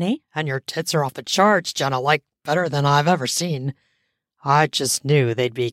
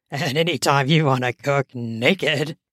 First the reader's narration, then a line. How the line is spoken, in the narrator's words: he said with a chuckle that grew into a belly laugh